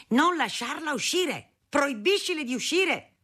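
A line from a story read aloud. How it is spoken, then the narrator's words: Shouting. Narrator (Italian): Mio padre urlava a mia madre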